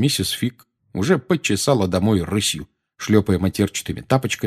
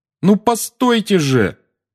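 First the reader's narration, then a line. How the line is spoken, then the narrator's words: Calling after. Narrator (Russian): крикнул Гарри ей вслед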